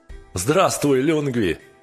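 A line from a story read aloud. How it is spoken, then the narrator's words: Shout. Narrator (Russian): крикнул он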